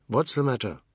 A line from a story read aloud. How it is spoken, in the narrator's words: Anand said